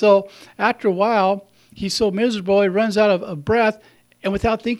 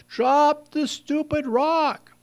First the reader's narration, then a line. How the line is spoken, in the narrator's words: the people in the boat yell